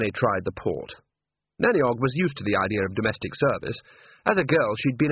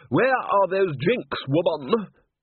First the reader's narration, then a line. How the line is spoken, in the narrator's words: a young man's voice bellowed